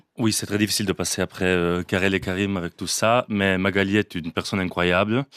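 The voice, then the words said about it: Italian accent speaking French. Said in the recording (French): “L'accent italien. ... L'irrésistible accent. ... Mais ça a beaucoup de sensualité”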